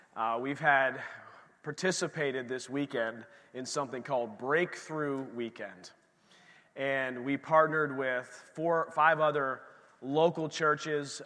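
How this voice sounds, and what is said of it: Strained, worn-out voice. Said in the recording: “You can hear my voice is a little challenged this morning.”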